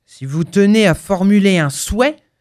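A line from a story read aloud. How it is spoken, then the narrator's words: Gruff voice. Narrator (French): fit d'une voix bourrue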